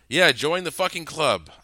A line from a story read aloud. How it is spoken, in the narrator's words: I snapped sarcastically